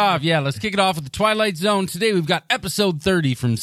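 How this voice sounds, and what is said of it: Usual voice. Nothing is said of it.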